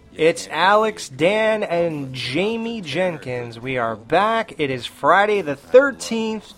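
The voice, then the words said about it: Spooky horror-host voice. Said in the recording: “spooky voice so that I sound like a real horror show”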